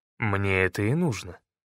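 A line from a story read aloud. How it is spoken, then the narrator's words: Calm. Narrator (Russian): спокойно ответил я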